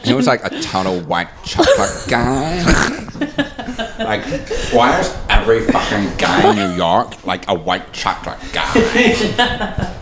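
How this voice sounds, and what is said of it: Ditzy American TikTok girl voice. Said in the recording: “That's such a good impression ... keep going with your dumb bitch American girl”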